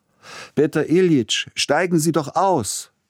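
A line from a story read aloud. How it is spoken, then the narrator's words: Young, ringing metallic voice. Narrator (German): rief der junge Silotti mit der schönen metallischen Stimme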